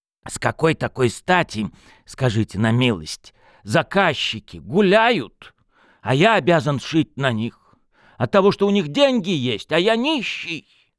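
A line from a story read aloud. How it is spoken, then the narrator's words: Loud, tipsy. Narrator (Russian): после каждого глотка говорил громко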